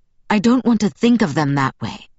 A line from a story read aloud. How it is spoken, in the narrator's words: Eliezer said through his teeth